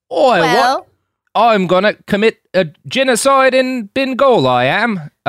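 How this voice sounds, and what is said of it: Put-on British accent. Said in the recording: “suddenly have a British accent”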